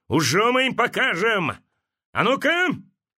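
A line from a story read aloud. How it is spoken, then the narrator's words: Shouted. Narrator (Russian): крикнул девкам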